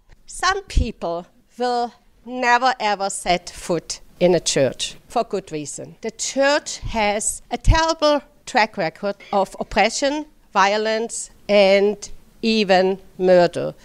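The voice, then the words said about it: German accent. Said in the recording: “I speak with an accent. I speak with a German accent.”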